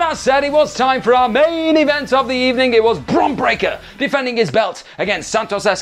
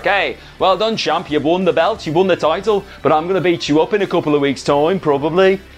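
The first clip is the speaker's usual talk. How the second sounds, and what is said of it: Bad put-on Birmingham accent. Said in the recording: “That's the worst Brummie accent I've ever done”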